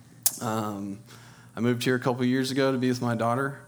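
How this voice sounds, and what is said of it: Texan twang. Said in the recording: “I was born in Texas, so if you hear some twang and some y'alls, that's why.”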